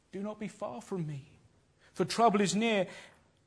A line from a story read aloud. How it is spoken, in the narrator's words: he cries out in prayer